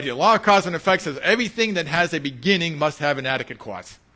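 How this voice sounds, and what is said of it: Boston accent. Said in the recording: “that's that Boston accent”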